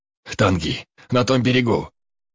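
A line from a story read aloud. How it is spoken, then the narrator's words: Hoarse wheeze. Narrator (Russian): успел прохрипеть я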